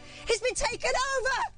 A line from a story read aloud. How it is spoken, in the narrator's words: yelled suddenly